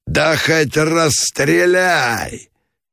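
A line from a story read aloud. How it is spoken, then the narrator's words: Wild yelling. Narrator (Russian): Заорал дурным голосом Меженин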